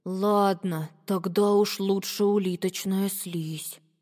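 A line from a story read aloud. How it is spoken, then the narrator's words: Mumbling. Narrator (Russian): пробормотал Макси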